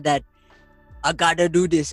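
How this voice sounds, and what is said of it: Arnold Schwarzenegger impression. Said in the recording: “I don't know why I did an Arnold Schwarzenegger impression”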